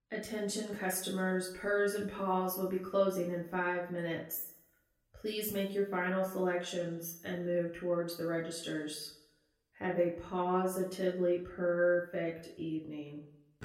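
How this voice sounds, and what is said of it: Exhausted, forced customer service voice. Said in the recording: “a clearly exhausted employee says in her best ... customer service voice”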